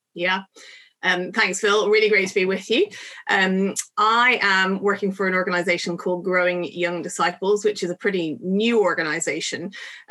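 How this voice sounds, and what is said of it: Irish Dublin accent. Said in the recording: “You can tell from my accent that I don't come from England or Northern Ireland, although lots of people think I do come from Northern Ireland. I come from Dublin”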